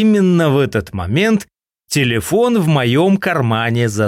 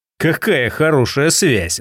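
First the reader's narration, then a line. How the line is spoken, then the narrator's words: Sigh. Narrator (Russian): вздохнул я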